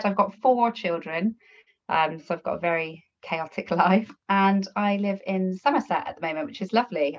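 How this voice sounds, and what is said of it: Slight Bristolian accent. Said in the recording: “probably got a bit of a Bristolian twang”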